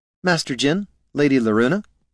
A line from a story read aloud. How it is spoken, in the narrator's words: said Niln